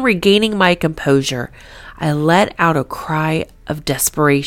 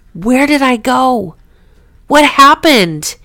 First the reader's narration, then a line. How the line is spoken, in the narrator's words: asked with a crying scream in disbelief